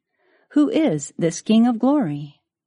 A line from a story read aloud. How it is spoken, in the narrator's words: The angel sentinels at the gate exclaimed